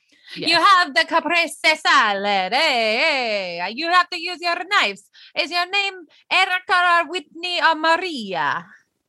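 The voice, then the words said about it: Put-on Italian accent. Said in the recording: “In an Italian accent.”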